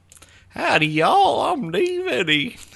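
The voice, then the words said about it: Put-on Southern drawl. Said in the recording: “Southern drawl... Yeah, just like that.”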